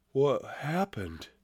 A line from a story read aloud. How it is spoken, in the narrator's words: he mumbled